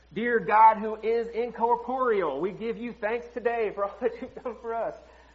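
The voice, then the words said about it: Put-on Southern accent. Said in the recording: “I don't know why I pray in like a southern accent when I do.”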